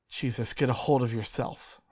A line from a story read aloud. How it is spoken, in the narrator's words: I muttered